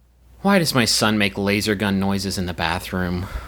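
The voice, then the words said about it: Disappointed reading voice. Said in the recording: “in an appropriately disappointed voice”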